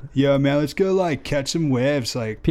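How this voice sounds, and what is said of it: Put-on Southern California surfer accent. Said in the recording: “Sounds pretty legit to me. ... You sound pretty legit to me right now. ... a Southern California surfer accent.”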